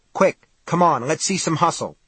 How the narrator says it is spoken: the cop said, looking nervously around

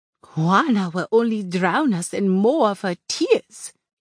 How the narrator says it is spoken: she chuckled

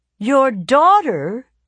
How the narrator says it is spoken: these devotees would exclaim

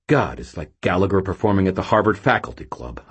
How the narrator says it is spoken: I muttered

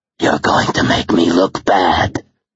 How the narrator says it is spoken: the man growled

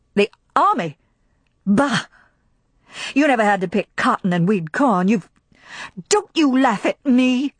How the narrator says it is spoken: her voice rose harshly

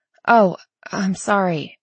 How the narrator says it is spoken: Tally sputtered

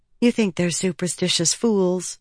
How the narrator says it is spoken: Shallan said softly

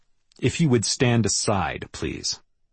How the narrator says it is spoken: I said calmly

